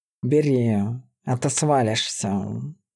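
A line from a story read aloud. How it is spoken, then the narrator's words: Tired sigh. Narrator (Russian): Лиза устало вздохнула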